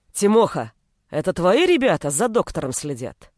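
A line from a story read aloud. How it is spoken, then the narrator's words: Master's bark. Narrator (Russian): рявкнул хозяин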